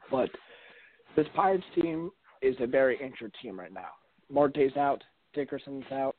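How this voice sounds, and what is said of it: Voice giving out, strained. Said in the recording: “sorry about my voice, losing it here a little bit”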